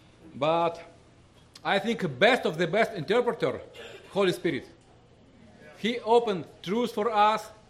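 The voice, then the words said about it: Heavy Russian accent in English. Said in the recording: “My English very poor. My Russian, my English accent very hard.”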